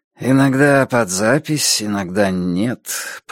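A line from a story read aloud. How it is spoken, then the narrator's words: Mumbling. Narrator (Russian): промямлил Рейди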